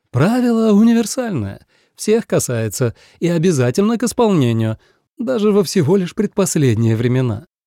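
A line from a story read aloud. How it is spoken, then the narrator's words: Laughing. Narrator (Russian): Юрати рассмеялась и добавила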